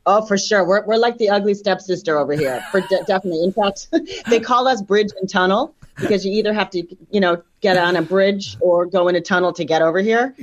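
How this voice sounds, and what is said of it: New York / New Jersey accent. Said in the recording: “You have a lovely New York, I'm insulting you now, New York, New Jersey accent”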